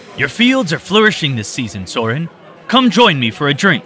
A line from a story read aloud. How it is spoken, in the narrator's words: Conrad shouted